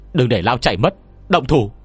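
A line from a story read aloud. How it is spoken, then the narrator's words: Sharp shout. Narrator (Vietnamese): Mạo Nguyên Dương mới như vừa phản ứng lại, quát lên một tiếng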